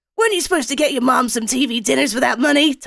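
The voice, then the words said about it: Put-on American accent. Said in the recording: “Is that an American accent? ... Yes. ... I think it's a great uh, American accent”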